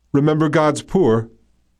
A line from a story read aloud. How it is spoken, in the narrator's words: the angel called out